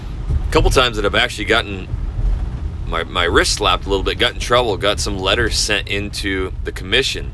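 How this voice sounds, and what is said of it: Rough, strained voice. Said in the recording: “my voice is jacked. I got some allergies or something. Throat hurts.”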